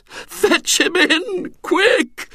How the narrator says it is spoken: moaned Mrs

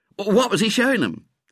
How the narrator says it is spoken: said Ginger excitedly

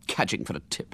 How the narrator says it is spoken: muttered the feminine voice indignantly

